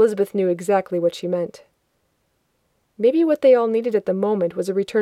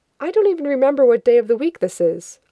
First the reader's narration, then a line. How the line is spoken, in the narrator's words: Elizabeth said